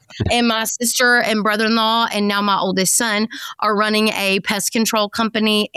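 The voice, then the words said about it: East Texas accent. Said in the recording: “rural East Texas, if you can't tell from this accent”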